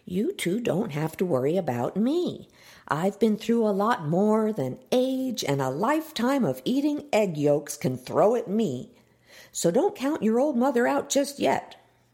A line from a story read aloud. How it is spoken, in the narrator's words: Miss Ellie pressed in the sweetest mom tone she could muster